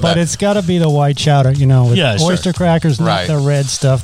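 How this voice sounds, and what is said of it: Thick Boston accent. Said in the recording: “No accent the entire interview until he talks about chowder, and then it gets thick.”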